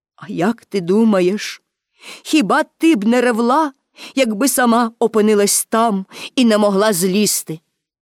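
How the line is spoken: Stout man, plain. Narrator (Ukrainian): якийсь огрядний добродій сказав

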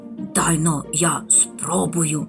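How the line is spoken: Whispered reply. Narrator (Ukrainian): так само пошепки відповів мумітроль

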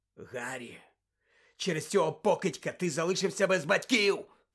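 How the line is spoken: Hoarse. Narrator (Ukrainian): прохрипів Блек

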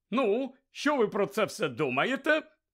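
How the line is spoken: Cheerful. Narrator (Ukrainian): Весело сказав Бегмен

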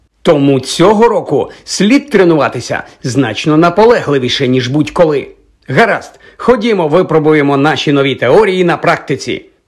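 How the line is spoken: Exclaimed. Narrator (Ukrainian): вигукнув

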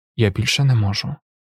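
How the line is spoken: Quiet reply. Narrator (Ukrainian): тихо відказав він

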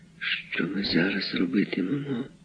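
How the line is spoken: Whisper. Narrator (Ukrainian): зашепотів він

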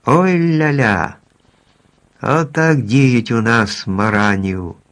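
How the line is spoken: Laughing shout. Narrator (Ukrainian): чоловічок зареготав і крикнув

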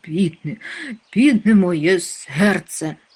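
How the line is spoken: Moaning. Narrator (Ukrainian): стогнав

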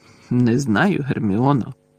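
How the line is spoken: Mutter. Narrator (Ukrainian): пробурмотів Гаррі

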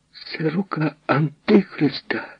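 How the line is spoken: Nun's exclamation. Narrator (Ukrainian): вигукнула сестра Лорета

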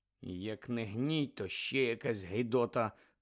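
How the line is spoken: Muttered to himself. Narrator (Ukrainian): пробурмотів собі підніс Шеймус Фініган

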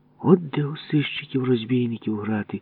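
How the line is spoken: Envious whisper. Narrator (Ukrainian): заздро шепнув Ява

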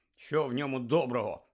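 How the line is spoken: Grumble. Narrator (Ukrainian): буркнув Рон

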